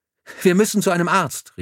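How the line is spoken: Nurse calling out. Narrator (German): rief die Schwester

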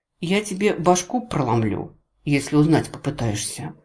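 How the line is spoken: Gently menacing. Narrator (Russian): ласково пообещала

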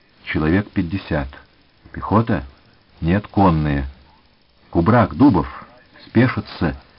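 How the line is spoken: Quiet command. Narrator (Russian): тихо скомандовал Левинсон

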